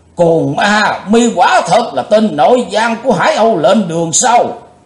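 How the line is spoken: Thunderous shout. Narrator (Vietnamese): Đồng Tăng Du Hiệp quát tợ như sấm

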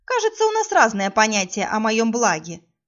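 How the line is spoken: Snide snort. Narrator (Russian): ехидно фыркнула

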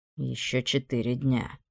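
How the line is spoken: Grumbled. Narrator (Russian): буркнул Амон

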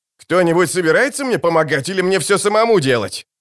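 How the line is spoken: Shouting. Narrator (Russian): крикнул конечек

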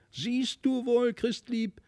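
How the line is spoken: Triumphant call. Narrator (German): rief Felix nun triumphierend

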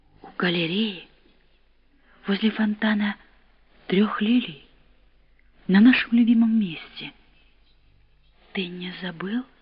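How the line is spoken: Sad questioning. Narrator (Russian): печально спрашивала она

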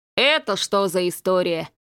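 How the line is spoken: Jealous deep-voiced priest. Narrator (Russian): ревниво пробасил поп

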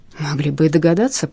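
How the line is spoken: Whispering. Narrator (Russian): прошептал Харальд Олдервул

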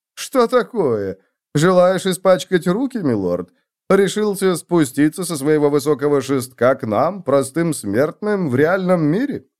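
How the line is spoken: Giggle, then normal voice. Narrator (Russian): Он хихикнул, потом продолжил нормальным голосом

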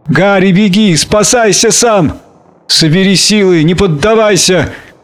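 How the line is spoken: Shouting. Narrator (Russian): кричал он ей

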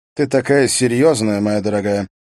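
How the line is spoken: Calm. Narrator (Russian): произнес он спокойно

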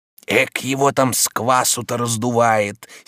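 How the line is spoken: Heartfelt grumbling. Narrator (Russian): сердцем ворчал Захар

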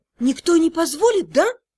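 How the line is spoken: Frightened whisper. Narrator (Russian): испуганным шепотом спросила

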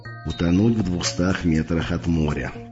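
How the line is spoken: Mutter. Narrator (Russian): пробормотал он

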